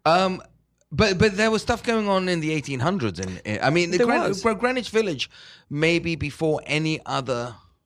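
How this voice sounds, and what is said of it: British-sounding accent. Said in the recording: “you have a British accent, even though you're not. You know, you're European ... I got that fancy ... accent.”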